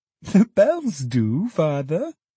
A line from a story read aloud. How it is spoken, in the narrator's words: laughed Meg